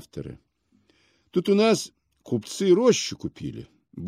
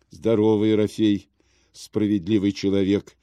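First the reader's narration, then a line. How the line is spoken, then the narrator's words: Dejected voice. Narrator (Russian): отвечал Касьян унылым голосом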